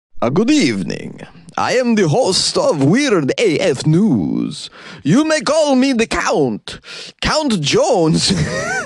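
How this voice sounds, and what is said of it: Count character voice. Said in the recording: “That's a pretty good Count impression”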